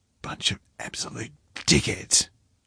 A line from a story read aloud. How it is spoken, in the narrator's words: she'd whispered in his ear